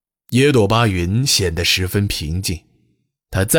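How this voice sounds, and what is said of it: Usual voice. Nothing is said of it.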